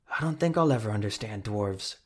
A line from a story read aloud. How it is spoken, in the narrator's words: Carmagnola muttered